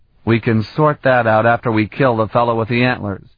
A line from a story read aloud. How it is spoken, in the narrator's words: Carlton growled